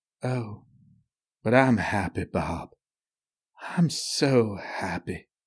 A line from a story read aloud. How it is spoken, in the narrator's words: Unmindful of the others, she murmured